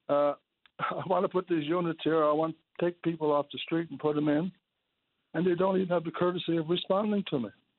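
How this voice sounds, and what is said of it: Strained, failing hoarse voice. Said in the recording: “I'm losing my voice there. I'm sorry about that.”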